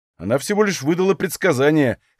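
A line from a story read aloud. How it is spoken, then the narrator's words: Skeptical snort. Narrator (Russian): хмыкнул я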